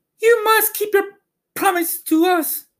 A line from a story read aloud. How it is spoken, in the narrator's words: exclaimed Dorothy